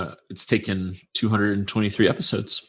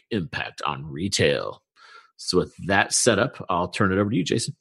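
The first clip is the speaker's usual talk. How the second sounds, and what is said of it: Announcer-style radio voice. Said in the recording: “I feel like I was supposed to have the announcer voice of us. So that's impressive. ... Now you've stole my fake radio voice.”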